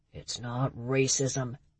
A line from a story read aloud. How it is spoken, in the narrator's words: Tiny grumbled